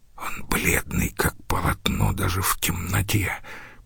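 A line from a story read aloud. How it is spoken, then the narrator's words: Whispering into ear. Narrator (Russian): прошептал Домициан в ухо своему другу Маринусу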